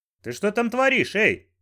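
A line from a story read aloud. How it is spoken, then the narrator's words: Shouted. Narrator (Russian): крикнул Банджо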